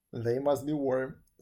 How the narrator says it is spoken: said Lin, laughing

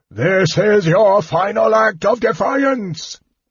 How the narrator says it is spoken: Verminard roared

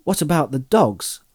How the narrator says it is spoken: asked Frodo anxiously

